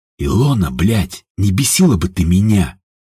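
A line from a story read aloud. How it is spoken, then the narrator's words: Weary mutter. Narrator (Russian): устало пробормотал Степан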